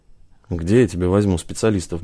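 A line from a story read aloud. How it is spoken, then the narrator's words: Grumbled. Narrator (Russian): буркнул Гаспарян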